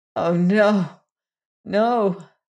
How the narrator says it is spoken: moaned Jane

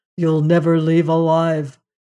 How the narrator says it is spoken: said, he said it in a monotone, with no emotion at all

